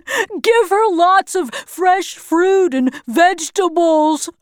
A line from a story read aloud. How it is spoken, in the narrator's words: he said, still laughing